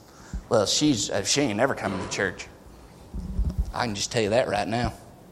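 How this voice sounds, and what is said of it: Put-on Southern accent. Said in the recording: “why do you always do a southern accent when you go to that voice? I am from the south.”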